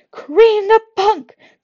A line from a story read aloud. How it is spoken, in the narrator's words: Clarissa screamed